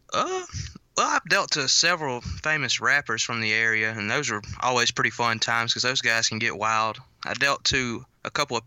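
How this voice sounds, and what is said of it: North Mississippi Southern accent. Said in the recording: “we can tell by your accent you're from Mississippi? ... North Mississippi”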